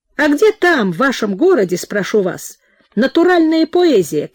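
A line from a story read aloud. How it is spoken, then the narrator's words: Eager, placating exclamation. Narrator (Russian): Как бы стараясь угодить нахмурившейся Нине, воскликнул он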